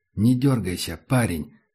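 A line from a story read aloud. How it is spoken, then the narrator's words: Quiet. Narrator (Russian): сказал негромко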